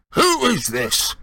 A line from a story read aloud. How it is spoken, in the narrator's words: he roared in the direction of the mouthpiece